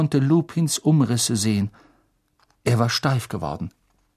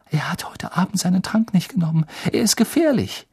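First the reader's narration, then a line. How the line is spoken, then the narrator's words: Gasping. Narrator (German): japste Hermine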